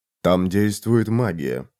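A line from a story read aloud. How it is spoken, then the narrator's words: Grim voice. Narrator (Russian): произнес Макс мрачным голосом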